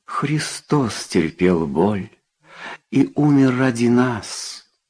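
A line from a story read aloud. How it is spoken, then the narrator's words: Gentle. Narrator (Russian): ласково сказал священник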